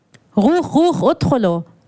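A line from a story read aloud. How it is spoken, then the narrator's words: Commanding in accented Arabic. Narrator (German): forderte ein Soldat auf Arabisch mit hebräischem Akzent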